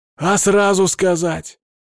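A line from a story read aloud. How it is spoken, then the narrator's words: Wailing. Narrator (Russian): взвыл я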